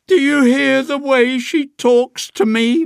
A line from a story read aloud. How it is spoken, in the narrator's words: wails Mom tearfully